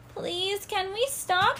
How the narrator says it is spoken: called out

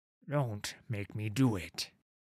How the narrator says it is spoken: Olar growled at Sigvar

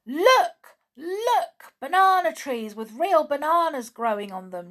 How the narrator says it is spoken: shouted, jumping to his feet

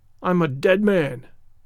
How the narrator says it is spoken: groaned the ranger

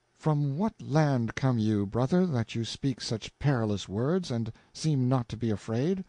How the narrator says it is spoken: said in a cautious voice

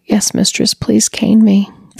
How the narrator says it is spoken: Defeated, Mark choked back a sob and replied

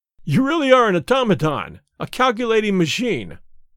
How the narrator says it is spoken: I cried

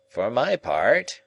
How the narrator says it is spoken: remarked Summerlee in his creaky, argumentative voice

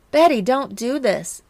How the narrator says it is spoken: Candy pleaded

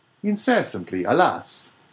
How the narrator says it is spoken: cried the abbé

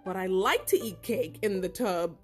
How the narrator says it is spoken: laughed the cat

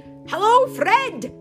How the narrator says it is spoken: shouted

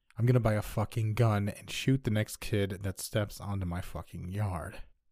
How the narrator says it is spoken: Beet red, he coldly stated

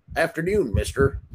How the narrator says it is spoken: the owner said

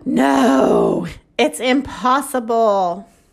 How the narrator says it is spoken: Chicken Little gasped

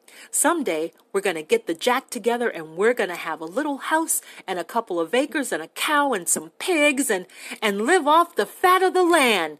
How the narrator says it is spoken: Lenny shouted

